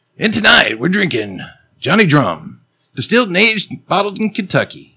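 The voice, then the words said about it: Radio announcer voice. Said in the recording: “in your best radio voice”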